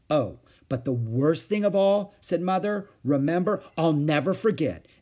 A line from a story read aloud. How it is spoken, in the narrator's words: exclaimed Aunt Beatrice